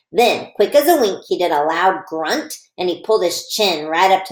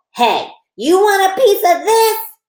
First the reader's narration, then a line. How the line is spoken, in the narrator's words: I shouted real mad